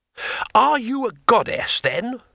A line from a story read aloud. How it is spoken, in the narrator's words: said Twoflower, excitedly